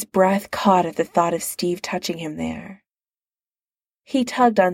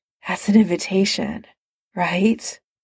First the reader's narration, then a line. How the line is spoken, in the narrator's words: Steve said breathlessly